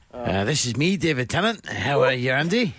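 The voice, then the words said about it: Attempted Scottish voice, sounds Irish, drunk. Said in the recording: “I sound a little drunk ... It was less Scottish, but more Irish”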